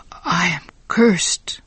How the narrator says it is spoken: Giovanni whispered to himself

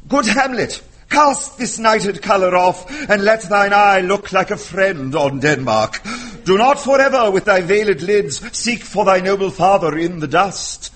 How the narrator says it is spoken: at the age of 6 or 7, excitedly reciting the words

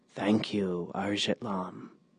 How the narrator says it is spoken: whispered

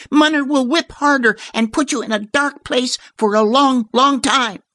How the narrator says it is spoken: warned Kate, her voice pitched high and trembling

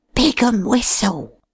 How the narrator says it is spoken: grunted Dollops in a husky voice, glad of an excuse to hide his pleasure at Cleek's appreciation of his character

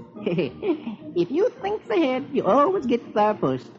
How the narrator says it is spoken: he giggles

